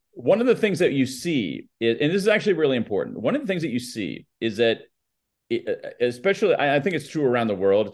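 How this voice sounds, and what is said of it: Flat American newscaster accent. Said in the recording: “your great American accent ... my American accent, my American newscaster flat accent”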